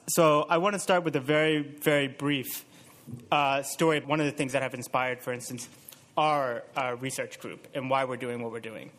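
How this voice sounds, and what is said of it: American English accent. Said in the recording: “you can probably tell by my accent that I'm from the U.S.”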